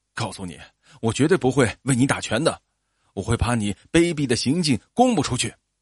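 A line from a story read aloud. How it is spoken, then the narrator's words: Angry. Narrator (Chinese): 约翰愤怒地说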